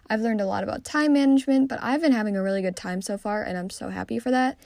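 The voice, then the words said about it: Hoarse, fading voice. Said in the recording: “my voice is going away”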